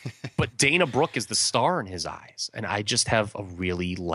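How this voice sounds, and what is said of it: Usual voice. Nothing is said of it.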